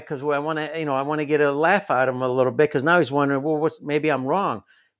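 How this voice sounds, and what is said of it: Slight Chicago accent. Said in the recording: “I sense a little bit of a Chicago accent here”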